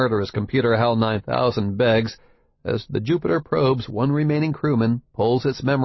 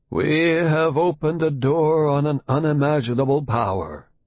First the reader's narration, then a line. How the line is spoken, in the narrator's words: the old scientist says gloomily